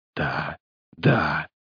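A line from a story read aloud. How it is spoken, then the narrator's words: Muttering. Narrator (Russian): бормотал он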